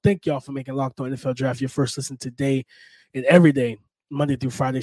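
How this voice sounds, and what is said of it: Sick, congested voice. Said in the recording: “as you can hear in my voice. I'm a little under the weather ... be patient with the voice ... some type of sinus infection”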